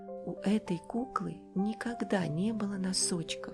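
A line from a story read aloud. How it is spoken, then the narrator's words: Plain. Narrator (Russian): сказала она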